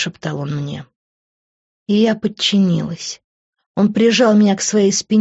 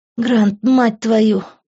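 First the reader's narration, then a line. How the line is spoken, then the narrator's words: Whimpered. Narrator (Russian): проскулила я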